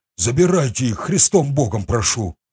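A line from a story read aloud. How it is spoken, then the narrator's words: Breathed out. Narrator (Russian): выдохнул он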